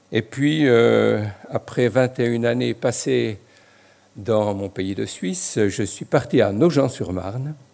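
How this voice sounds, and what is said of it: Slight Franc-Comtois French accent. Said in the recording (French): “peut-être que certains reconnaissent un peu mon accent franc-comtois”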